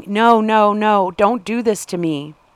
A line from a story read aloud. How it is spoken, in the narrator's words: she was hysterically screaming